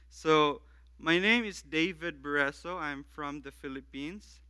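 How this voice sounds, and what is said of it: Filipino-accented English. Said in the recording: “we've all adjusted to my accent”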